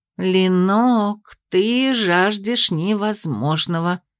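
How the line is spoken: Drawled philosophically. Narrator (Russian): философски протянула подруга

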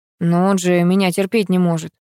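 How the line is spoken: Timid husband objecting. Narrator (Russian): робко возразил супруг

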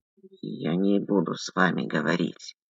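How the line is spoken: Creaky. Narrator (Russian): проскрипел Муравьев

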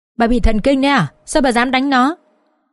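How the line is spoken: Angry shout. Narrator (Vietnamese): bố chồng tôi quát

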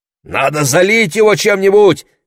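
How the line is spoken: Shouting. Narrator (Russian): кричал Лес

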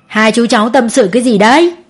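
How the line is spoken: Laughing loudly. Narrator (Vietnamese): ông cười to

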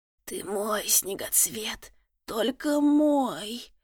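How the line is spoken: Hoarse male rasp. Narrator (Russian): прохрипел он

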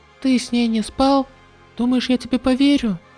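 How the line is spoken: Sighing reply. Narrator (Russian): Вздохнув, Сэй ответил

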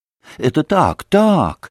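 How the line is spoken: Exclaiming. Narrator (Russian): воскликнула было госпожа Хохлакова

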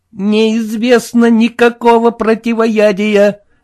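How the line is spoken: Groaning boat. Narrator (Russian): простонала лодка

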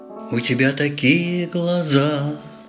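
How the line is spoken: Deep soft drawl. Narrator (Russian): Протянул глубокий, мягкий голос

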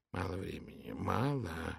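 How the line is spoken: Muttering. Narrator (Russian): бормотал он

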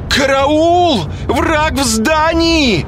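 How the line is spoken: Piercing shriek. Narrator (Russian): завизжала она пронзительным голосом

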